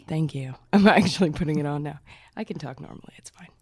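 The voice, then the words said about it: Low, sultry radio voice. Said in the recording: “You came in with a sultry voice. ... that radio voice. A post Comic Con. ... But it sounds really sexy.”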